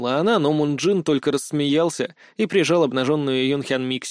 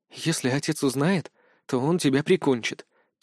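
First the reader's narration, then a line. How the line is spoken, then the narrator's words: Girl, quiet. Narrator (Russian): тихо сказала девушка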